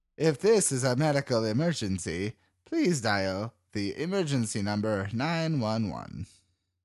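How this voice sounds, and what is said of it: Robotic female automated-message voice. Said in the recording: “best robot voice woman impression.”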